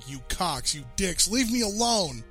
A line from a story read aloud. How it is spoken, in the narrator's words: teeth clenched against shouting